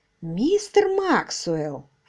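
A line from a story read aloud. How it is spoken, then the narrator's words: Silky, ingratiating. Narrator (Russian): вкрадчиво сказал Марч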